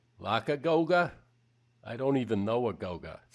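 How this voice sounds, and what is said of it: Put-on Boston accent. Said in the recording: “I always feel like that joke ought to be with a Boston accent.”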